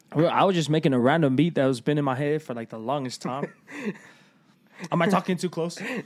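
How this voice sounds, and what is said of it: Strong accent suddenly comes through. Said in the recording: “your accent kicked in hard right there ... whatever you just did right there”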